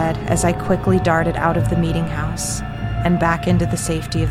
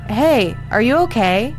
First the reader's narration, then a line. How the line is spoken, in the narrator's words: he shouted from inside the meeting house